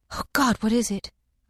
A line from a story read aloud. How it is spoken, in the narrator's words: I gasped